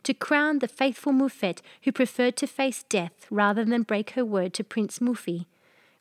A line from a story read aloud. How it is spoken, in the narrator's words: she cried